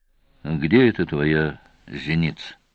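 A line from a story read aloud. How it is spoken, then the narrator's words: Very calm question. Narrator (Russian): очень спокойно спросил Сварог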